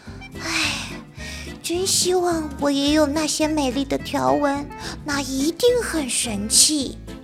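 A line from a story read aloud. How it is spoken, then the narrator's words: Sighing. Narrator (Chinese): 叹了口气说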